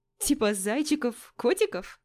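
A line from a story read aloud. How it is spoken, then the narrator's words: Giggling. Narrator (Russian): Хихикаю я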